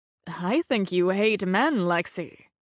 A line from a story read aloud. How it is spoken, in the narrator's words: Sherry observed in a husky, cultured voice